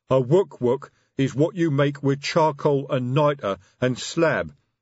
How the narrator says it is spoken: said the sergeant

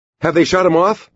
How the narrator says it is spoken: he asked Stuart in a nervous, quick voice

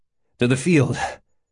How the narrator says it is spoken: he grunted

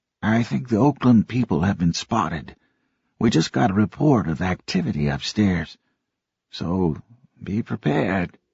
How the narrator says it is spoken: Ben Fenimore came up to them and said softly

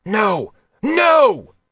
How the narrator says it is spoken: Roth yelled

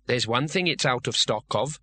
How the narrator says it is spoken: said Bethan firmly

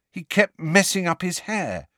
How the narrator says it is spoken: said Harry in a pained voice

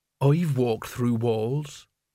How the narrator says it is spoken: he said, slowly and deliberately

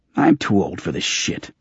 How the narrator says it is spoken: Candles grumbled

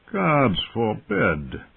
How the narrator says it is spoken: a man's voice replied lazily

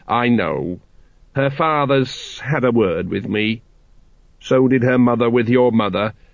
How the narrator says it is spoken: said the dwarf coldly

